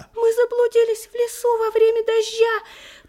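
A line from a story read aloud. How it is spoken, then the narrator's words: Faint squeak, baby goldfinch. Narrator (Russian): пропищал еле-еле один из щеглят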